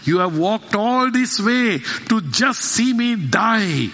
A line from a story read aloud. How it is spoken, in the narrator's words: he cried